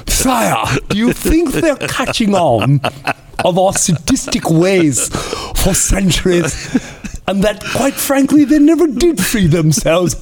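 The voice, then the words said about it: Put-on devilish English accent. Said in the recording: “I always go to an English accent. To me, it's just more devilish.”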